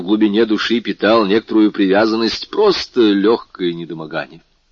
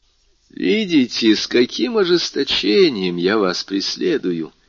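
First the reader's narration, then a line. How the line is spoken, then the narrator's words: Warm, smiling. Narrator (Russian): сказал Фария, ласково улыбаясь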